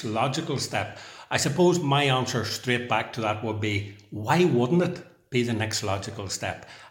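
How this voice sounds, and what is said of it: Surprised tone. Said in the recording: “I say that in a kind of surprised tone in my voice”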